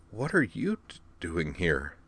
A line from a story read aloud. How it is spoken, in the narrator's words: she asked his unconscious shape quietly